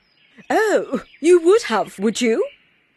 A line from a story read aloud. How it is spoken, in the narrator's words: said the tigress, who was laughing